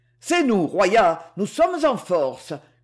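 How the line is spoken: Shouting. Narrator (French): hurla Courtois

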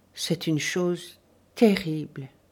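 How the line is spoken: Muffled, hollow voice. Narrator (French): fit Dorothée au bout d'un instant, et d'une voix sourde

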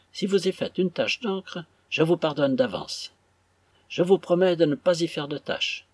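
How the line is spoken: Very gracious tone. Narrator (French): Madame Sparkler dit d'un ton fort gracieux

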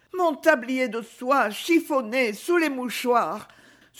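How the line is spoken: Old woman's pained sigh. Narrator (French): soupirait douloureusement la méticuleuse vieille demoiselle

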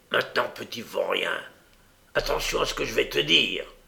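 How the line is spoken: Low murmur. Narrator (French): murmura-t-il à voix basse

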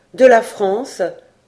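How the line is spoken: Firm reply. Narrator (French): répondit Robert Kergorieux d'une voix ferme

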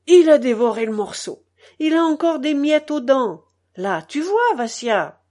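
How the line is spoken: Triumphant shout. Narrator (French): elle criait d'un ton victorieux

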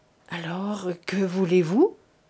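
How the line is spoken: Stammered. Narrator (French): balbutia M

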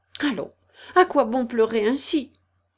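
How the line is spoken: Brisk, to herself. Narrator (French): se dit Alice vivement

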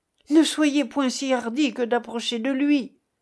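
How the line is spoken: Exclaimed. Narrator (French): s'écria Calogrenant

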